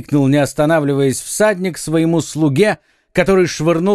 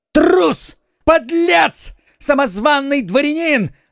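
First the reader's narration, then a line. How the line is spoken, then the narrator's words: Shout. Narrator (Russian): закричал Д'Артаньян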